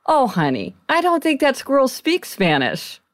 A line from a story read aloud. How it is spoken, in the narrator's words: he said kindly to the girl